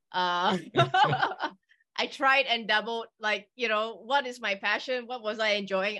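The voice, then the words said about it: Slight British accent. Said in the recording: “you speak some degree of the British accent”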